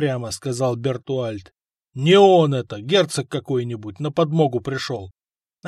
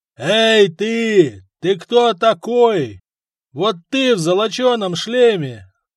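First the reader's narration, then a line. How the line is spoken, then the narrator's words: Yelling. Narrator (Russian): заорал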